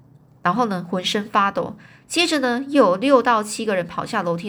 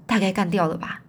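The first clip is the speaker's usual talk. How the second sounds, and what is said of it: Quiet, hushed voice. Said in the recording (Chinese): “小声说”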